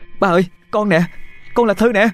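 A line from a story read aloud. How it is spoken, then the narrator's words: Calling out. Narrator (Vietnamese): Thư kêu lên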